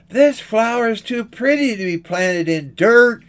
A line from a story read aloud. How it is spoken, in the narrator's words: she cried